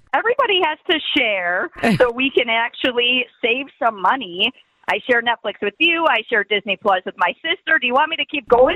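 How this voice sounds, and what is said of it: Deep, rich Wisconsin accent. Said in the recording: “your deep, rich Wisconsin accent.”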